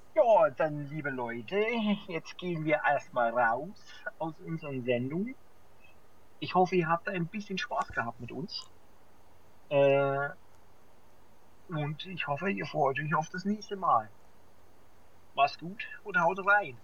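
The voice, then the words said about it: Put-on regional German accent, poorly done. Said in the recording (German): “Was war denn das bitte für ein Akzent? War das, war das Ostfriesisch? ... Bestimmt ganz dolle schlecht. ... der Sachse”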